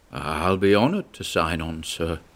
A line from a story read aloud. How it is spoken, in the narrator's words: mumbled Chartres vaguely